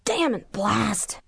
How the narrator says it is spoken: croaked

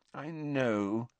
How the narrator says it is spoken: said Hermione soothingly

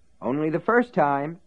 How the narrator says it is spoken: Ace assured him happily

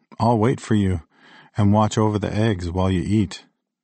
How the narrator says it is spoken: I said

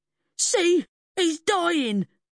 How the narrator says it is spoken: man cried

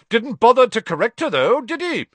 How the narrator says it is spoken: said Amos Diggory, loudly enough for Harry to hear

